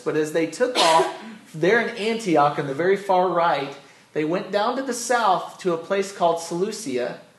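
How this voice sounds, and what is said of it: American accent. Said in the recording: “I got my American accent going”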